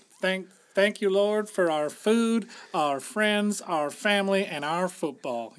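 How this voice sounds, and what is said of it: Put-on Southern US accent. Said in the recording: “I like how you went to a Southern accent there.”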